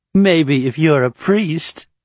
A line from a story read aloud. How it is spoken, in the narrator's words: Atera said with a quiet twitter of a laugh